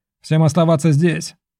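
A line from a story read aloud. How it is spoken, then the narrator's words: Barked. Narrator (Russian): рявкнул я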